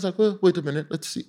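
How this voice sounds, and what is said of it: Imitates another person's voice. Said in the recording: “That's my accent.”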